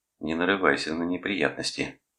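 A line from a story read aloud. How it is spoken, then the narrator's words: Quiet speech. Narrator (Russian): тихо сказал он сутенеру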